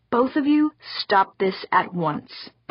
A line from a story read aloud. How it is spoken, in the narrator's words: Pauline said firmly